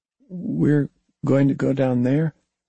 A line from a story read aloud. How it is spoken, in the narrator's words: David asked nervously